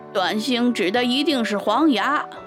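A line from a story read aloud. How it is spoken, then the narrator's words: Loud. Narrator (Chinese): 小耳大声说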